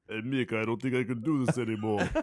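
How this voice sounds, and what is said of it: Sylvester Stallone impression. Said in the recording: “You're Stallone ... stick with Stallone.”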